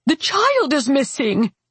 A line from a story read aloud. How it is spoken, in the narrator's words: roared